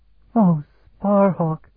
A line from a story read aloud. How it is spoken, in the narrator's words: she cried in a low voice